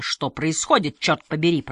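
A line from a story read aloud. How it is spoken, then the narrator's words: Grumbling. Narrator (Russian): продолжал бурчать Сюндет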